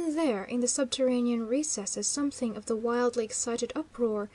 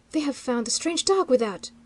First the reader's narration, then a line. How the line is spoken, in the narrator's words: he cried sharply